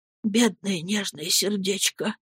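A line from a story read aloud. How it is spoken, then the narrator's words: Whispering. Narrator (Russian): прошептал Хэм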